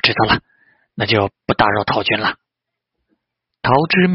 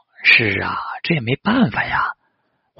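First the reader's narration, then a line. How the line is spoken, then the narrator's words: Sighing. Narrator (Chinese): 陶之命叹道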